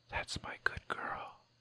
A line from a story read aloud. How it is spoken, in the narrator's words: whisper in your ear